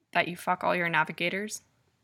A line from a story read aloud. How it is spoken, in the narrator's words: Abel murmurs